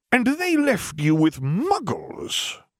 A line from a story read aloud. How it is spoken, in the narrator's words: he added in a possibly more affronted tone